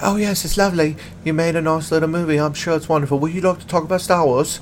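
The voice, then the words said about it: Weak put-on British woman's accent. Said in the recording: “my British accent is not amazing, especially when I try to be a lady Brit”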